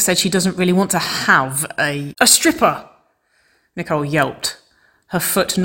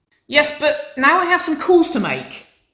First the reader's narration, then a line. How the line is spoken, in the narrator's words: Winona shouted, whooping once more